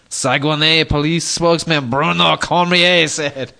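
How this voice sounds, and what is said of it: Put-on French accent. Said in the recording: “you do such a convincing French accent. I mean, I seriously thought for a second I was in French Canada.”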